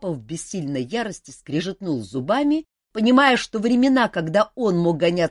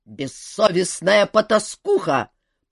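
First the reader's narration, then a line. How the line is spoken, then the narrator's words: Angry growl. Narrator (Russian): прорычал папа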